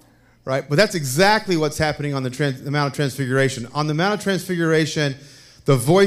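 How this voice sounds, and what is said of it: Usual voice. Nothing is said of it.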